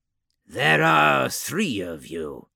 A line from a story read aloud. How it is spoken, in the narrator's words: replied Gerlok scornfully